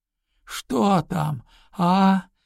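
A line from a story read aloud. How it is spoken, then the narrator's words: Wounded groan. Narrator (Russian): снова простонал раненый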